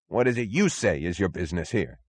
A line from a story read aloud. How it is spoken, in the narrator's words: snapped the chief